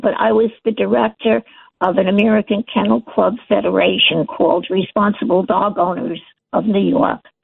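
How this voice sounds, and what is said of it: Weak, unwell-sounding voice. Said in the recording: “Now my health is failing, so I apologize for my voice, ... I have severe COPD”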